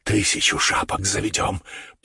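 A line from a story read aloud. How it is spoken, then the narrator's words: Delighted whisper. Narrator (Russian): прошептал он в восторге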